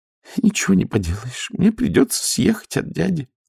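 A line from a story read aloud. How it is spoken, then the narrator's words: Sighing. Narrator (Russian): вздохнула Нюня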